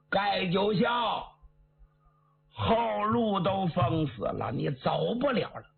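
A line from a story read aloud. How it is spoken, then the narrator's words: Loud shout from behind. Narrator (Chinese): 背后有人高声喊喝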